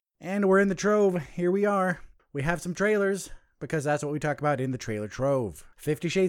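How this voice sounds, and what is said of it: Usual voice. Nothing is said of it.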